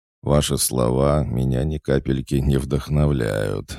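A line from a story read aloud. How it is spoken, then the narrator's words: Sighing. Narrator (Russian): вздохнул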